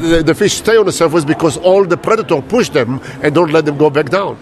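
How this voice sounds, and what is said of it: Non-native English accent. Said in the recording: “speak with my own accent”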